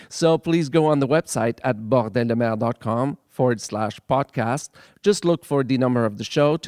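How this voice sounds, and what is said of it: Strong accent, fast speech. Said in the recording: “I say them very, very fast, and with my accent, sometimes it's not very, very easy to understand”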